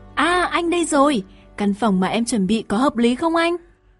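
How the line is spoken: Joyful exclamation. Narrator (Vietnamese): Thúy Hoa lại reo lên

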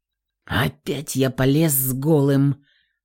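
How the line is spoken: Annoyed mutter. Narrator (Russian): пробормотал с досадой

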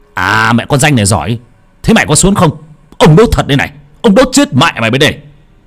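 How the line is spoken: Hissing shriek. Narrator (Vietnamese): lão Hà miệng lại rít lên

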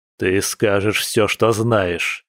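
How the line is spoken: Werewolf through clenched teeth. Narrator (Russian): процедил оборотень

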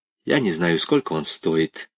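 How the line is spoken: Dry reply. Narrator (Russian): сухо ответила Софья Александровна

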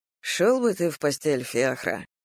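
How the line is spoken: Tired sigh. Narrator (Russian): произнес я, устало вздохнув

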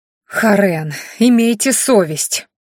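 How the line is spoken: Indignant moaning girl. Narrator (Russian): С возмущением простонала все еще не боящаяся девушка

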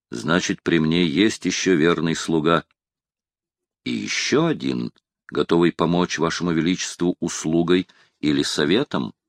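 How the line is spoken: Whisper. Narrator (Russian): шепнул Оливье

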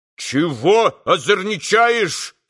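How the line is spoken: Townsman shouting. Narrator (Russian): закричал мещанин

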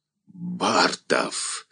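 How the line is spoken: Hoarse shout over noise. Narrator (Russian): Сквозь гул голосов хрипло прокричал

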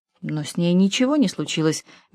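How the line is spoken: Soft remark. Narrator (Russian): мягко заметила Эдит

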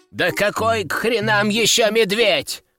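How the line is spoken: Young man yelling. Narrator (Russian): орал молодой герцог

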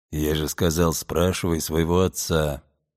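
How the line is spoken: Grumbled mutter from behind. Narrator (Russian): буркнул сзади Брюс

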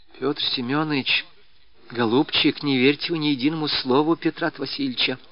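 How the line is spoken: Whispered. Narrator (Russian): шепнула она

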